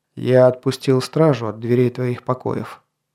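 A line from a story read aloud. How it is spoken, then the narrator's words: Weary king. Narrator (Russian): сказал король, устало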